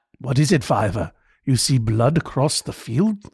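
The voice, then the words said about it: Gravelly English accent impression. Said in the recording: “my imitation of John Hurt ... it's just an English accent, but also this like. It was like he was talking through a bag of sand.”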